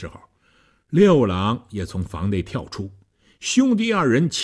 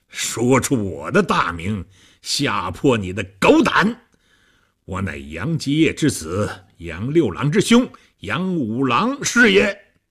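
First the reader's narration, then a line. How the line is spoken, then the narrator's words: Hearty laughing. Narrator (Chinese): 和尚哈哈大笑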